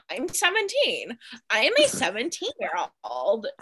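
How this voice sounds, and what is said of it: Drew Barrymore impression. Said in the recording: “That was a good Drew Barrymore impression”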